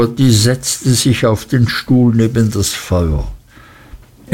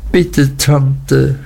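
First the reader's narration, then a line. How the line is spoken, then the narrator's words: Sobbing. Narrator (German): schluchzte Emly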